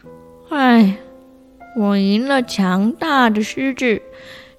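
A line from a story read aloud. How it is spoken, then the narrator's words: Resigned sigh. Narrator (Chinese): 蚊子无奈地叹了一口气说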